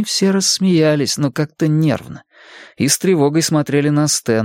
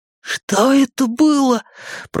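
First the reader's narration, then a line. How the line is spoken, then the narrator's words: Hoarse wheeze. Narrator (Russian): просипел он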